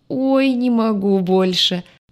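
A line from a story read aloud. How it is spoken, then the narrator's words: Young man's groan. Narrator (Russian): Парень застонал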